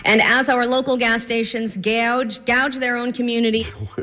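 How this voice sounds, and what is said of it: Sudden odd accent while reading. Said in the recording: “where's that weird accent just popping up from?”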